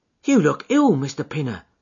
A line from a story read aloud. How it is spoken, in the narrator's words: exclaimed